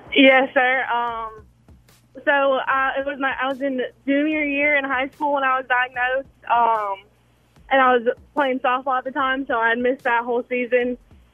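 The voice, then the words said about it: Young-sounding voice. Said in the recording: “you sound young.”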